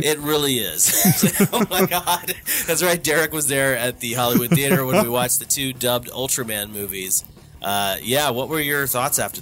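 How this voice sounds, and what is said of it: Stuffy, congested voice. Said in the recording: “coming off of a pretty terrible sickness ... you could probably tell from my voice that things are a little stuffy up in my head”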